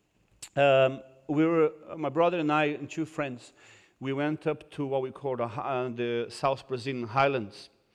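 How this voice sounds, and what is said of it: Non-British foreign-accented English. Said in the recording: “am I speaking okay? My accent is good enough to you? ... I cannot make the accent. I can't do it. So this is as good as it's going to get.”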